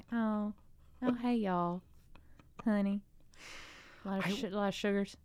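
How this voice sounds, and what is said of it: Southern US accent. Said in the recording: “can you do your accent that you grew up with? ... Southern accent”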